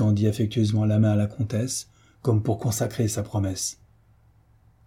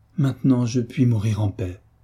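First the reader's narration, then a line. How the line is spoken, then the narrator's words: Exclaimed. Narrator (French): s'écria madame de Beauménil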